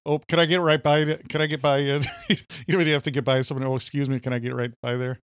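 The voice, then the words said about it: Put-on Minnesota accent. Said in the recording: “lately I've been doing the Minnesota accent ... It's actually sticking”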